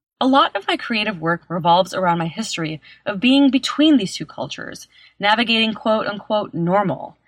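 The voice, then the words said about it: American Chicago accent. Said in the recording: “my American/Chicago accent”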